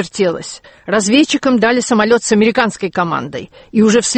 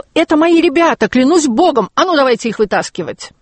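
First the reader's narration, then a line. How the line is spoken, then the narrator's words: Shouted, officer. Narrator (Russian): майор закричал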